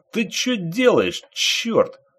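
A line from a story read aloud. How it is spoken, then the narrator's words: Irritated fisherman yelling. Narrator (Russian): раздраженно заорал рыбак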